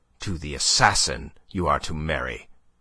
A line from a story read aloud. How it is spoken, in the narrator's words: said he furiously